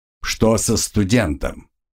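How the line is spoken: Sharp commanding voice. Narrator (Russian): спросил резким властным голосом

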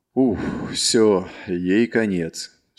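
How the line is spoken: Relieved exhale. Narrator (Russian): С облегчением выдохнул Марк

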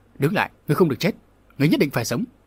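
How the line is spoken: Panicked thunderous shout. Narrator (Vietnamese): Lão phó giáo chủ địa ma giáo hốt hoảng quát lên tựa sấm

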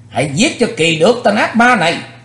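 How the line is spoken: Shouted battle cry. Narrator (Vietnamese): Theo tiếng hét

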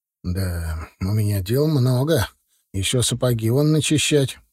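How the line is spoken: Grumbling. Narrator (Russian): проворчал тот

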